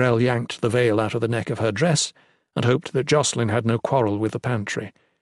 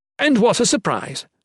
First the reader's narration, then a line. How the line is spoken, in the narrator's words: Jocelyn exclaimed